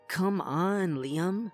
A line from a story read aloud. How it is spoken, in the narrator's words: she groaned